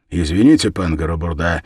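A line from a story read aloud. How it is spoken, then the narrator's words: Sharp, abrupt. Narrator (Russian): резко бросил я, как в водоворот прыгнул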